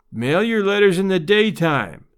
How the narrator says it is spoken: growled Papa Keller

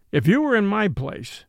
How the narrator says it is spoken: answered the sergeant

